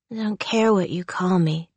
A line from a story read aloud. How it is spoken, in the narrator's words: she slurred